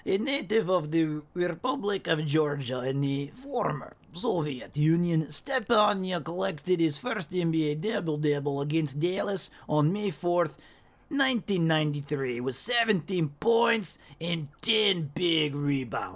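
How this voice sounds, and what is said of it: Put-on Soviet Russian accent. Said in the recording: “Soviet accent, please ... Now he did the accent.”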